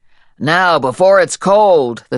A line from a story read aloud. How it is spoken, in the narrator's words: the cook bellowed